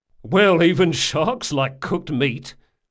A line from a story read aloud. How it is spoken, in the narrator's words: said the sergeant with a chuckle